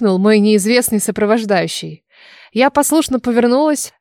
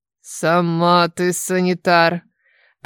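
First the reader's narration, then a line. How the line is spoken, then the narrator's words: Displeased grumble. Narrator (Russian): проворчали недовольно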